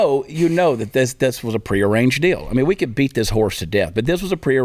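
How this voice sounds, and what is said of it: Usual voice. Nothing is said of it.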